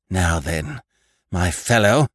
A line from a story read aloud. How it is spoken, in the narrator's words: gasped Annie at length